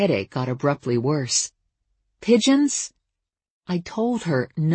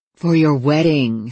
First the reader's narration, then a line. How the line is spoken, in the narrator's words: said my mother impatiently